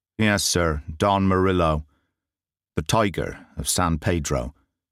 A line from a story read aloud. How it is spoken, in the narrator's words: said Baines